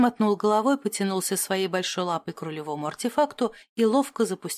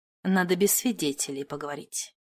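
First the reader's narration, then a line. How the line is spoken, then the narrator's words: Businesslike declaration. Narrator (Russian): заявил деловым тоном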